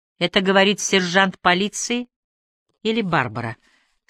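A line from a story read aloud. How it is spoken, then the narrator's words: Impassive question. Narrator (Russian): спросил Ажар бесстрастным тоном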